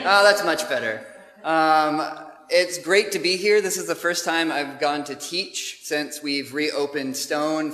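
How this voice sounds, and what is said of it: American accent. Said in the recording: “as you can tell from my accent, we have not come from some other part of the UK, but we are from the States originally”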